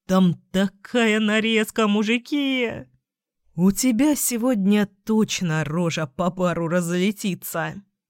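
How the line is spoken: Chuckling. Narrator (Russian): хохотнул Саня

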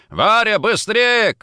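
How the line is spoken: Shout. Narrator (Russian): крикнул

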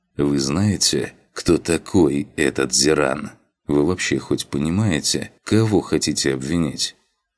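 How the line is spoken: Calm inquiry. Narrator (Russian): Спокойным голосом поинтересовался Дар Аннат

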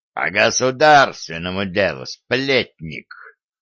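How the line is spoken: Growling. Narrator (Russian): прорычал Гордон

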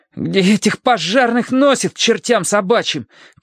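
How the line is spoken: Teenager shouting. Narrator (Russian): крикнул подросток

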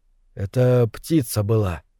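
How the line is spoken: Quiet. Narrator (Russian): сказал Николин тихо

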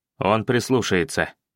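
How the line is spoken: Sharp curt remark. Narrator (Russian): резко бросил я

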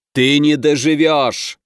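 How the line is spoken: Roaring. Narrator (Russian): взревел Громов

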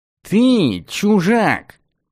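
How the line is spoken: Nasal, dismissive. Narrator (Russian): гнусаво и пренебрежительно заявил тот

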